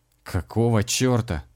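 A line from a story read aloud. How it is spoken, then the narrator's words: Irritated catlike hiss. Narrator (Russian): раздраженно зашипел, словно кот, бывший комиссар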